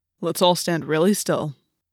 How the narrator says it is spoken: Jake said

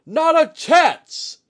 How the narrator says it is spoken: Itsuji barked

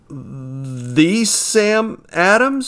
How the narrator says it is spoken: stammered

